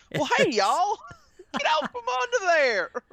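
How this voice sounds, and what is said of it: Put-on Southern accent. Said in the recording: “southern accents”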